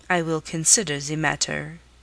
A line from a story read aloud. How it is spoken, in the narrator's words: said sullenly